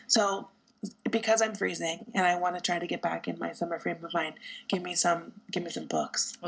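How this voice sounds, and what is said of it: Raspy, partly lost voice. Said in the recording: “I've been losing my voice on and off, so I'm a little raspier than usual”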